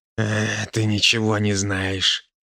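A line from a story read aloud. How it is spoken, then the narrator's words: Quiet growl. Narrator (Russian): тихо прорычал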